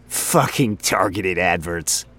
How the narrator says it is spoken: Frink chuckled

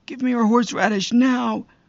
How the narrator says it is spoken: Roger is always impatient, but he was screaming

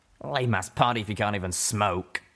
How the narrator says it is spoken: Reggie grumbled

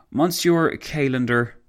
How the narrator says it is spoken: Foch sighed

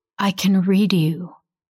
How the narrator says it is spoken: she says

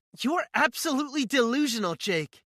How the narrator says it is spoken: she yells at me

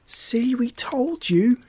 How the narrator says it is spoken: shouted Lucinda and Erica together

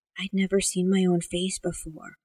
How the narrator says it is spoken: Amanda whispered

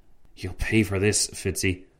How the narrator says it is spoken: Tancred whispered to his friend

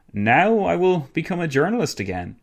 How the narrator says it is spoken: he exclaimed to his sister-in-law

